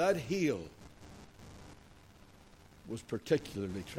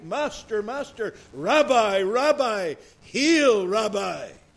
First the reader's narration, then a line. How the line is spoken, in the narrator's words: he cried